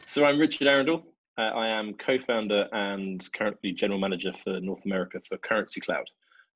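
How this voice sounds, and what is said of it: English accent. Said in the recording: “As you'll tell by my accent, I am a native Englishman”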